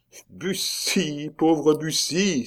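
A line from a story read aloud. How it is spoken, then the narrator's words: Despairing exclamation. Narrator (French): s'écriait Ribérac désespéré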